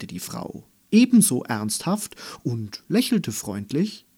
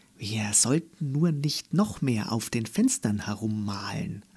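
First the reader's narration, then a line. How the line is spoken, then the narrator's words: Low murmur. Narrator (German): raunte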